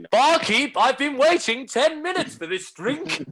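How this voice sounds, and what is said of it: Put-on posh English accent. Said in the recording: “another English accent, like maybe a posh one”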